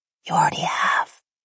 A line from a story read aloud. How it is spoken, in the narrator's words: I whispered